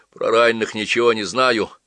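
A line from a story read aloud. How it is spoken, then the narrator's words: Young man sighing. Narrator (Russian): вздохнул парень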